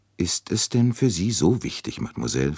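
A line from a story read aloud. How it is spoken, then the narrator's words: Plain. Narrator (German): fragte er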